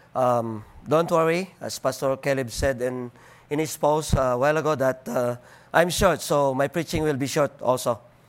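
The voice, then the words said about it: Deep Filipino accent. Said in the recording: “with my deep uh, Filipino accent”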